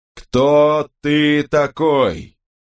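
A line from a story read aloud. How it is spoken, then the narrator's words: Slow deliberate shout. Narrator (Russian): Сэр Джон, с расстановкой произнося слова, словно он обращался к глухому ребенку или идиоту, прокричал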